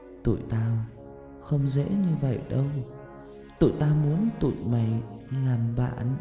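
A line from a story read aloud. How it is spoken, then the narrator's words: Whisper close to ear. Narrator (Vietnamese): má phải và miệng nó sát vào bên tai tôi thì thầm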